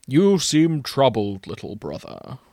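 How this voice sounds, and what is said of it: Old wizard character voice. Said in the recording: “my best Gandalf impression”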